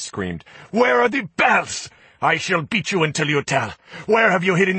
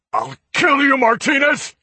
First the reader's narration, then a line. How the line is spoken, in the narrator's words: He shouted